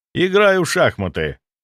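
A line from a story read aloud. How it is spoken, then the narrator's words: Calm. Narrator (Russian): ответил спокойно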